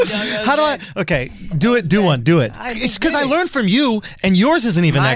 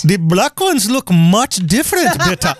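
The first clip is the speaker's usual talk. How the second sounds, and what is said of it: Poor put-on Indian accent. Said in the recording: “my Indian accent is so trash”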